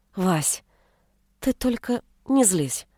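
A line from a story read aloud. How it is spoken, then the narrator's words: Timid request. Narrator (Russian): Робко попросила она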